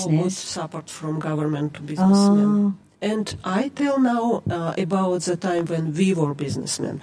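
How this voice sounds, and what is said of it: Non-native English accent. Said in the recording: “My accent, sorry.”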